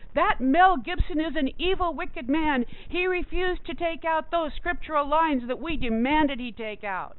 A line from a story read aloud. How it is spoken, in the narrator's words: screaming and reporting